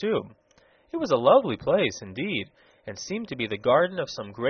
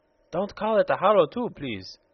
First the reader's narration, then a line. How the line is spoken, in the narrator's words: exclaimed the peculiar person in an irritated tone of voice